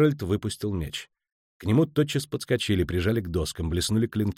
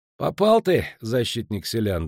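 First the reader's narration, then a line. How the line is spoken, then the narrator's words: Dry. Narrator (Russian): добавил сухо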